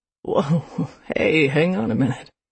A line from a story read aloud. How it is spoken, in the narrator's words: chuckled